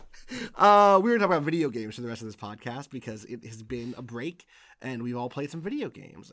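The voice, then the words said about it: Voice still sounding sick. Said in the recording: “I got sick last week ... You can still hear it in my voice. I'm not at 100%”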